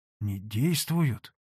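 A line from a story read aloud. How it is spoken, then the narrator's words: Trembling voice. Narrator (Russian): дрожащим голосом молвил Потап Максимыч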